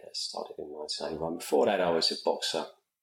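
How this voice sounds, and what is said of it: British accent, south London. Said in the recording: “I'm from the UK ... Sometimes I think it gets a bit confused in Australian ... No, it's British. Come from the southern edge of London.”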